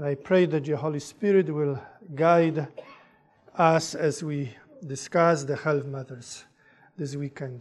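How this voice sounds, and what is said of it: Polish accent. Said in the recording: “I speak with an accent ... that's where the accent comes from. I am from Poland originally.”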